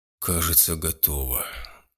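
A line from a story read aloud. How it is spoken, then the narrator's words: Breathy exhale. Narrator (Russian): выдохнул Гудо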